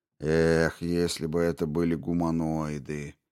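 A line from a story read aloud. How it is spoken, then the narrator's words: Sighing. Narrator (Russian): вздохнул доктор Бойль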